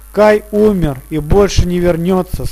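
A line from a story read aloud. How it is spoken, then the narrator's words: Plain. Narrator (Russian): сказала Герда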